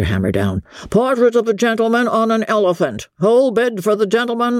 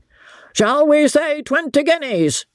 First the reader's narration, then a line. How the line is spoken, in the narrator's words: cried the auctioneer